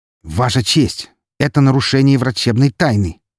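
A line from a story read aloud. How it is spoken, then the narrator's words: Sharp. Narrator (Russian): резко произнес я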